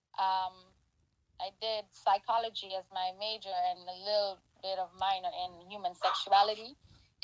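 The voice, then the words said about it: Caribbean accent from St. Kitts. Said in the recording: “your accent ... I'm from the Caribbean island, the lovely Caribbean island of St. Kitts and Nevis”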